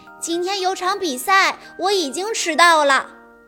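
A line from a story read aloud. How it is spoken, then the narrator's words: Loud answer. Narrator (Chinese): 乔丹高声地回答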